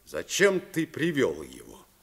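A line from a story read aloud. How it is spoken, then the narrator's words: Accusing question. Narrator (Russian): спросил он обвиняющим тоном, как если бы Майк был Иудой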